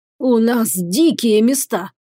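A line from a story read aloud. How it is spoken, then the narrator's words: Hoarse wheeze. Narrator (Russian): прохрипел наместник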